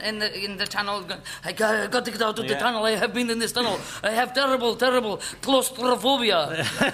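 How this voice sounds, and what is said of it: Excellent put-on Russian accent. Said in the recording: “Well, you can have 2 points for an excellent Russian accent.”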